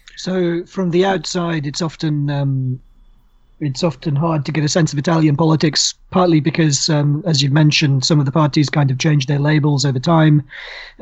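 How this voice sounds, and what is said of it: Hoarse, croaky voice. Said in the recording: “why is your voice so hoarse? ... you've got a bit of a croak there ... So I'm a bit hoarse from that.”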